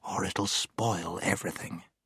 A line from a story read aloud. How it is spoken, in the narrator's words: whispered Scrub